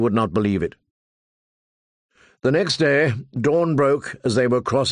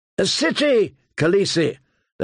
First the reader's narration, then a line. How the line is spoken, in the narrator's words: they cried